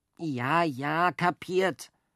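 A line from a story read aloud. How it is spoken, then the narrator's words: Plain. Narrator (German): sagte Jockel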